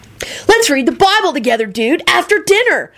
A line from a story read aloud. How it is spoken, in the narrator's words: Kenny hollered